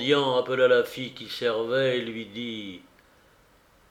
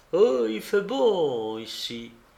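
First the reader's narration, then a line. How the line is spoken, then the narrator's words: Sighing blind man. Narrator (French): L'aveugle soupira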